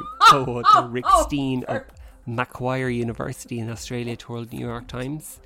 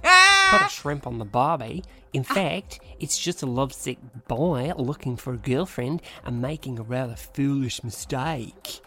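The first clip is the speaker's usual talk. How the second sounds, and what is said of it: Put-on Australian accent. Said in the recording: “this is going to be in an Aussie accent. ... I can't do it. I can.”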